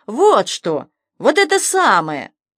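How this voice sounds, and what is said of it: Nasty mocking cat voice. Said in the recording (Russian): “противным голосом повторил сверху кот”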